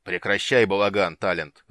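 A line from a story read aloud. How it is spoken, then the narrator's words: Growled. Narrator (Russian): рыкнул он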